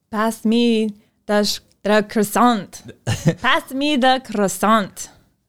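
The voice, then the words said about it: Put-on French accent. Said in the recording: “Pass me the croissant in a French accent”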